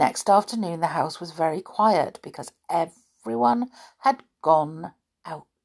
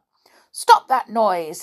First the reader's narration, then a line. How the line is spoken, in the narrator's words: said Amelia Jane crossly